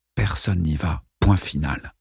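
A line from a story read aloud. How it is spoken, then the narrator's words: Mutter. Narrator (French): marmonna Mike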